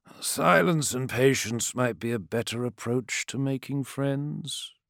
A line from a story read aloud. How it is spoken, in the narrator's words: drawled Ashul